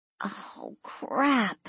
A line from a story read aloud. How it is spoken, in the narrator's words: she groaned